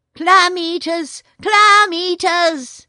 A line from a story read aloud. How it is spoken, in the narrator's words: shouted as loud as he could